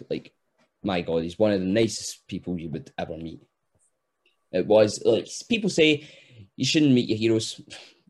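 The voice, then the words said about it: Fast Scottish accent. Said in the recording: “us being Scottish, we speak 100 miles an hour. So it's very hard to understand ... it's very hard to understand the accent”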